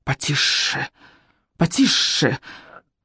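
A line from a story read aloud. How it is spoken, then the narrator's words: Hissing iron. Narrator (Russian): зашипел чугунный утюг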